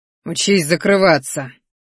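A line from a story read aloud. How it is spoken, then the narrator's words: Spiteful, through clenched teeth. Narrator (Russian): злобно процедил он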